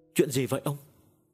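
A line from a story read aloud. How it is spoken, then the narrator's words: Trembling voice. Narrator (Vietnamese): Bà mẹ Tuấn run run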